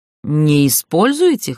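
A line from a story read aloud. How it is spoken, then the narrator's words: Snorting. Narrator (Russian): хмыкнула я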